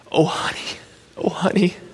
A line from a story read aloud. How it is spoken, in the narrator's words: she whispered